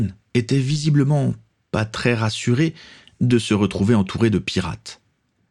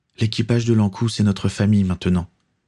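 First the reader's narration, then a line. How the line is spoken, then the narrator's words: Shy smiling speech. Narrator (French): dit-il en souriant timidement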